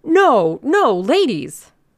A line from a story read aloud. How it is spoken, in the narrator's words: cried Mr